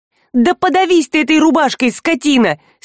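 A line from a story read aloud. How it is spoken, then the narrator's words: Hateful, desperate shout. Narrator (Russian): С ненавистью и отчаянием прокричала она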